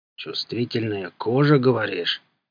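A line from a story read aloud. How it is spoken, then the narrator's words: Sudden ominous question. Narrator (Russian): спросил вдруг караул нехорошим голосом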